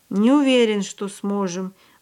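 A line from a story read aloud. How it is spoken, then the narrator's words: Gloomy. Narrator (Russian): мрачно ответил Барток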